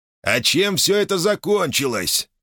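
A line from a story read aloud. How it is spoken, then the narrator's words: Shouted. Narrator (Russian): крикнул Самвел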